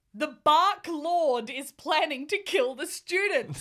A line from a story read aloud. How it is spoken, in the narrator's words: yelled Cornelia Fudge